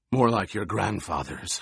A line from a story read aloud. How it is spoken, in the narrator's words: Hawat rasped